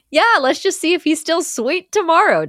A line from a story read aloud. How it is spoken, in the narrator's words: Doc yells